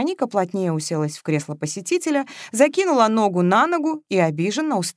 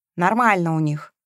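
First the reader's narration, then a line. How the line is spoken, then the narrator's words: Grumbled. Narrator (Russian): пробурчала Вероника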